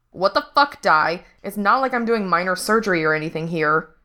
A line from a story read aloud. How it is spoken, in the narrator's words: Frank snapped